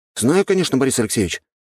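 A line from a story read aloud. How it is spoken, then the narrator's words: Exclaimed. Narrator (Russian): воскликнул я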